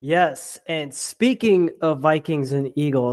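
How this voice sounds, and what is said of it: Usual voice. Nothing is said of it.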